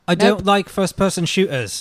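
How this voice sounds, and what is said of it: Poor put-on English accent. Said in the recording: “Is that how I sound? That's horrible. ... I do a terrible English accent.”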